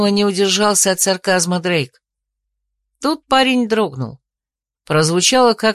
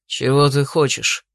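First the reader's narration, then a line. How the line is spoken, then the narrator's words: Grumbled. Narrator (Russian): пробурчал Дрейк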